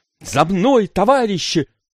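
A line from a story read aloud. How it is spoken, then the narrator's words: Shouted. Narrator (Russian): Еще раз крикнула Гуля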